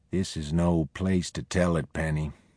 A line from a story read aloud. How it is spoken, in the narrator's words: Oliver said in a low voice